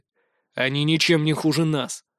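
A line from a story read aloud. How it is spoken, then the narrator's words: Gloomy reply. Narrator (Russian): мрачно ответил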